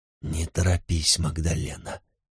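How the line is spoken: Whisper. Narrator (Russian): прошептал он

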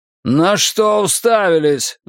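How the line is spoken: Roar. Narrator (Russian): взревел он

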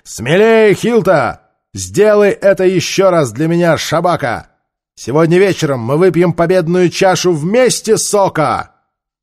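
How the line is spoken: Shouting encouragement. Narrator (Russian): кричал им

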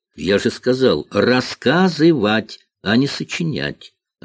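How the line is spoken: Plain. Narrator (Russian): ответил Гайдо

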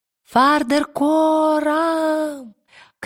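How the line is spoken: Shout. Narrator (Russian): крикнула Лира

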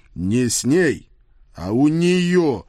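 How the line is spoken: Embarrassed growl. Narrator (Russian): краснея до ушей прорычал я

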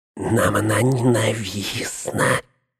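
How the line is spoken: Hissing. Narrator (Russian): прошипел он

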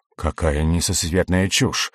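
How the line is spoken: Irritated snort. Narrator (Russian): Земел раздраженно фыркнул

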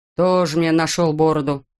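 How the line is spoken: Grumbling. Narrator (Russian): проворчал механик

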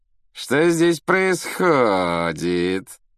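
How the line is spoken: Mocking affected drawl. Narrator (Russian): насмешливо проговорил Малфой, манерно растягивая слова

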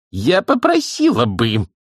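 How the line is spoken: Indignant exclamation. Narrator (Russian): возмущенно воскликнула Маград

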